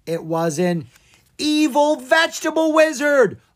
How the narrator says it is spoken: Owen screamed

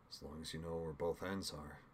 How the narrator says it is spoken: Nick asked almost sullenly

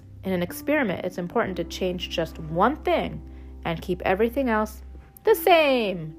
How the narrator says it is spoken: chirped Pip

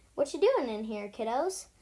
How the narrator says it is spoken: Dad asks playfully

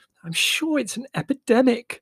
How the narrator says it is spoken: she exclaimed at last

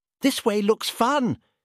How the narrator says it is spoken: trumpeted excitedly

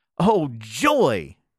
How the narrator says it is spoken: cried Beckie

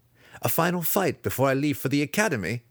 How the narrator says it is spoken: he laughed

